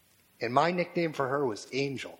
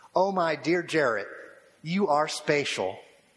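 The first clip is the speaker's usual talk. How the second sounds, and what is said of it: Imitated Texas Panhandle accent. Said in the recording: “In her wonderful accent from the cotton fields, the patent panhandle of Texas”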